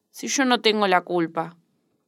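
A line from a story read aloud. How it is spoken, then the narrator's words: Nasal voice. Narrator (Spanish): un cretino constantemente decía con voz nasal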